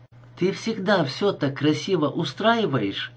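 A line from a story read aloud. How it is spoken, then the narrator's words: Plain. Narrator (Russian): сказала Тарния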